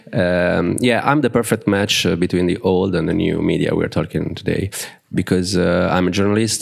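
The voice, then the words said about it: Strained, impaired voice. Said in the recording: “Sorry for my voice, uh, it's not very good”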